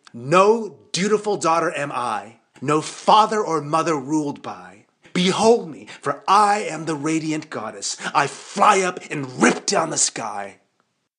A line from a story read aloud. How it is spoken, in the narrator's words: I sing out triumphantly